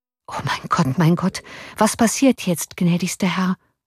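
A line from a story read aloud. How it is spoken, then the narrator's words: Murmured. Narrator (German): murmelte der Offizier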